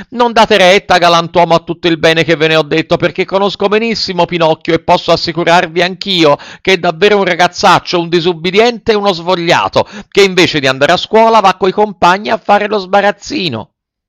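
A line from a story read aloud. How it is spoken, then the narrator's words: Frightened shouting. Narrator (Italian): tutto impaurito, cominciò a gridare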